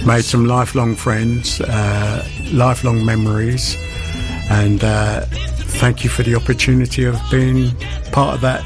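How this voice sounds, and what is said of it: Posh English accent. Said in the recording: “loving your posh accent.”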